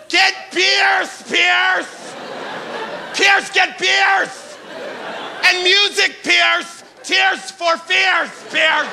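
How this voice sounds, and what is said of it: Guy shouting for his friend. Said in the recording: “my impression of a guy asking his friend Pierce to get beers for a party.”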